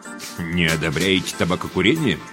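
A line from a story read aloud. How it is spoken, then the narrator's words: Knowing snort. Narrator (Russian): понимающе хмыкнул Зайнеке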